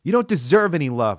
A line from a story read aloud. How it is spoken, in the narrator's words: yelled